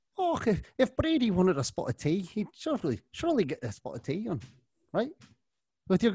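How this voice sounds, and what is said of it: Put-on Scottish-Irish accent. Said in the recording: “my fantastic accent. I'm basically Mel Gibson and Braveheart over here, mixed with ... Colm Meaney called The Van”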